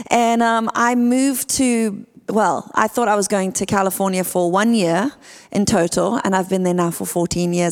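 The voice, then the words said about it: South African accent. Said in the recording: “that is not an American accent... I am from South Africa”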